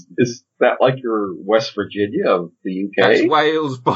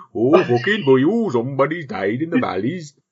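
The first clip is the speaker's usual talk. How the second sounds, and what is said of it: Put-on Welsh accent. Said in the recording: “That was Wales, by the way. ... That's Wales by way of South India. ... I'm not allowed to do accents like that.”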